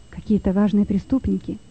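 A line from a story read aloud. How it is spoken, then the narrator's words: Whispering among themselves. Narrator (Russian): шептались между собой заключенные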